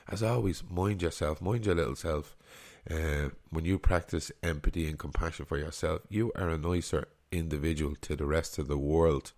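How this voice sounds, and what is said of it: Congested, sick-sounding voice. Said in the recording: “my voice hasn't put you off with my man flu”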